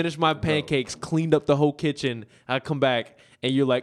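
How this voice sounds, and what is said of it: Usual voice. Nothing is said of it.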